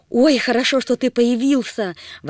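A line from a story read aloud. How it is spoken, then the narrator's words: Exclamation. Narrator (Russian): воскликнула Агата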